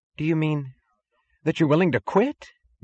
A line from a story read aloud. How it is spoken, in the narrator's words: gasped Mooch